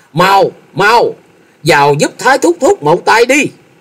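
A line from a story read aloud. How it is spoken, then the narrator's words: Alarmed shout. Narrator (Vietnamese): Thôi Dân thất kinh hét lớn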